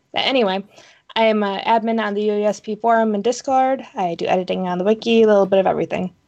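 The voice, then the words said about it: Voice sounds off, coming down sick. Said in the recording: “my voice is kind of doing funny things today, so if it starts to sound weird, I must be coming down to something ... So if my voice sounds weird, that's why.”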